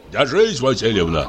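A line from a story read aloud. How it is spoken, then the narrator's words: Plain. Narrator (Russian): сказал Семен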